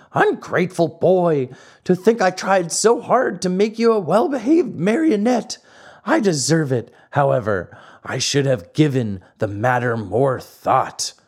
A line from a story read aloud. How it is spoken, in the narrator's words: The poor old fellow wept and wailed like a child and said between his sobs